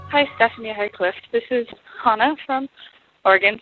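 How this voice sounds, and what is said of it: Slightly out of breath. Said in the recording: “little out of breath because I just walked up about 8 flights of stairs”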